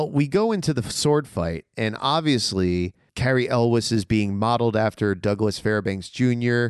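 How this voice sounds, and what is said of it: Usual voice. Nothing is said of it.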